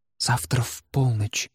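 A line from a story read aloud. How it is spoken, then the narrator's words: Whisper in ear. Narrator (Russian): шепнула она ему на ухо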